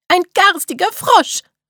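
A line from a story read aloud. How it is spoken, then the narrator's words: Daughter calling out. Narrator (German): rief die Tochter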